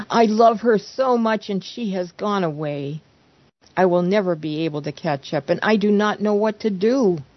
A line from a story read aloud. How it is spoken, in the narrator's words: pleaded desperately